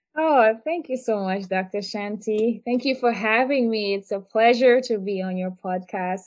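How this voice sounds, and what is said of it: Trinidadian accent. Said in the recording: “Y'all hear that accent, y'all? She's from Trinidad and Tobago.”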